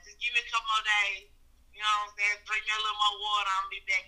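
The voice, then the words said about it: Hoarse, strained voice. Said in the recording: “my voice is a little hoarse because I've been screaming and hollering at motherfuckers ... I don't usually sound like a 12-year-old boy who nuts just dropped ... My voice is a little messed up right now”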